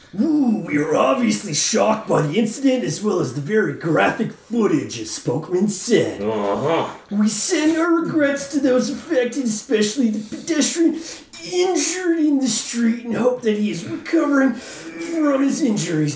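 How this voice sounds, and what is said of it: Macho Man impression. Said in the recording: “Hashtag macho man... Do the rest as macho. Go... Macho man, go.”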